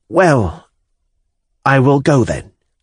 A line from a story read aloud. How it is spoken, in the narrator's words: I said, looking at him timidly and inquiringly